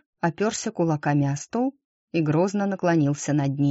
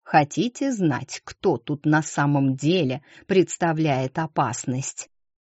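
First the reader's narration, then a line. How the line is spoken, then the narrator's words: Angry hiss. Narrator (Russian): Прошипел он, побагровев от злости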